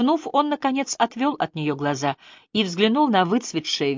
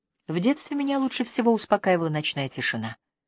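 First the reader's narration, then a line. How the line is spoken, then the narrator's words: Quiet. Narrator (Russian): тихо произнес Ажар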